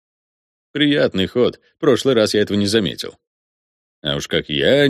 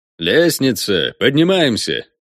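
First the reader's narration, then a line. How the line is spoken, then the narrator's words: Cheerful announcement. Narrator (Russian): бодро объявил Волме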